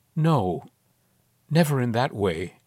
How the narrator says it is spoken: she murmured slowly

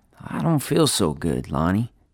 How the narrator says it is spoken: he said weakly

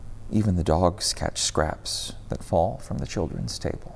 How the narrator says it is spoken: Quietly, almost to herself, she muttered through her tears

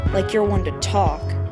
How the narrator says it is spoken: muttered

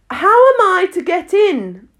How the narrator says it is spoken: asked Alice again, in a louder tone

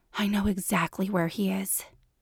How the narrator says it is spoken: she said breathlessly

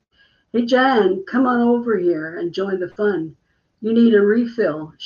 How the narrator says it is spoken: Shannon called out

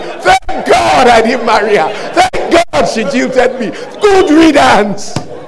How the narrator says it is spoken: he'll be shouting

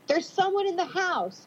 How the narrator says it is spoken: I barked with extreme adrenaline coursing through me

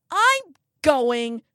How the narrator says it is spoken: she yells

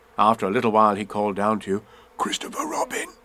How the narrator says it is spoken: he said in a loud whisper

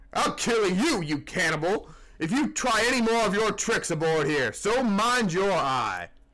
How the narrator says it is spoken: roared the captain

